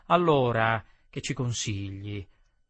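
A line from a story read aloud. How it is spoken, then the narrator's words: Murmured. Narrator (Italian): mormorai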